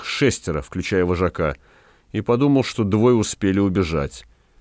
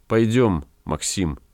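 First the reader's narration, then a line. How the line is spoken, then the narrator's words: Quiet. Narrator (Russian): тихонько сказала Рада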